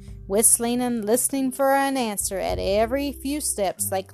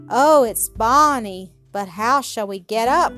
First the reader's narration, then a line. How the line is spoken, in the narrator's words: cried Jean